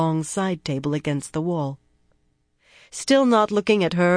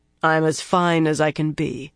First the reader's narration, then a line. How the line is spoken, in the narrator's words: he said flatly